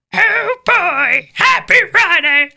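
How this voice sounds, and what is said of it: Kermit the Frog impression. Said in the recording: “your Kermit the Frog impression, your best Kermit ... It's the most horrible thing I've ever heard ... Just do Kermit the Frog.”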